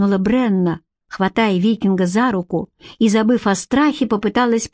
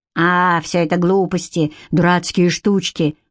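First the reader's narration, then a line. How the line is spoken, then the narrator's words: Dismissive snort. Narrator (Russian): хмыкнул Седрик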